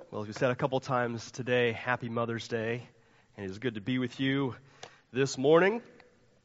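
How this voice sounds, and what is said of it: Nasal congested voice. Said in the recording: “my voice is a little uh, nasally today ... my like once a year cold that settles into my chest”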